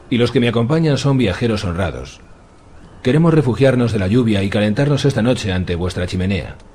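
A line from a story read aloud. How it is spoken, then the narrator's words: Shout. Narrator (Spanish): le gritó Meribal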